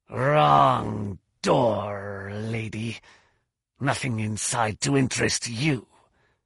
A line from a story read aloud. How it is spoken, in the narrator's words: rasped